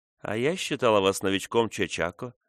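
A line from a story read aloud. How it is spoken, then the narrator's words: Soft. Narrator (Russian): мягко сказала Фрона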